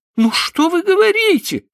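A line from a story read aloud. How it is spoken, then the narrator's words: Exclaimed. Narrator (Russian): воскликнула она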